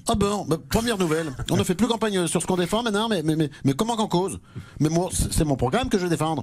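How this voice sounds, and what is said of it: Exaggerated French provincial accent. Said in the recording (French): “ce joli petit accent provincial”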